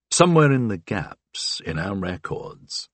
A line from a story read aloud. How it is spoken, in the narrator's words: I said quietly